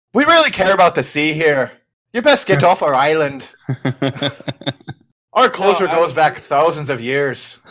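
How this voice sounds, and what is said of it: Put-on Irish accent. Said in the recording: “Islanders speaking in, like, an Irish accent”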